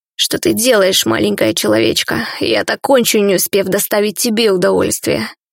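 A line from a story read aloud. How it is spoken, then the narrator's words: Hoarse. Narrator (Russian): сипло сообщил он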